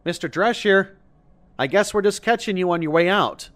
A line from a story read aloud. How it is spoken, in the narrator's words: called out the window